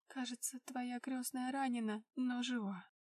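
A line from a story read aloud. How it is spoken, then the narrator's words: Trembling voice. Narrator (Russian): дрожащим голосом произнесла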